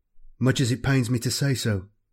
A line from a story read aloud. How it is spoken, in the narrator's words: Cain replied with a faltering voice